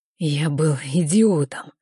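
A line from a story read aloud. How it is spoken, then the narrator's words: Hoarse. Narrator (Russian): хрипло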